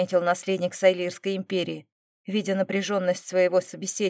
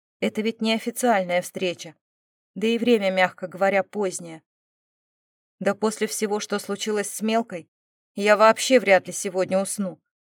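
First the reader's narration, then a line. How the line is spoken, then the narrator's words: Wry snort. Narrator (Russian): хмыкнул Эмбрис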